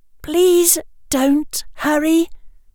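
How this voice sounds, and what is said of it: Soft, gentle voice. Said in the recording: “she said in a soft voice.”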